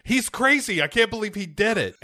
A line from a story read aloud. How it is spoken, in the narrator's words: This father yelling